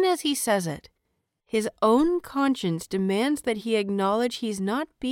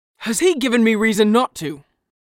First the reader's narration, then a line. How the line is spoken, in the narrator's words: Lan Qiren counters harshly